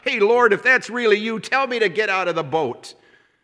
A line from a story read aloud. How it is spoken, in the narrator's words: Peter shouts